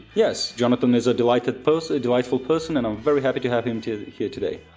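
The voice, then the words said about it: Weird put-on British accent. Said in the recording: “you have like a really weird British accent right now”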